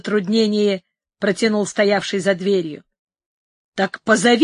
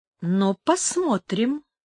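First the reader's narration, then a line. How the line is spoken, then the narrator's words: Muttering old woman. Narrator (Russian): пробормотала старуха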